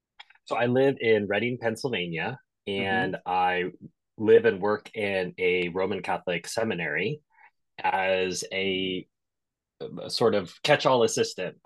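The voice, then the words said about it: American accent. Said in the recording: “He's American, as you can tell by the accent”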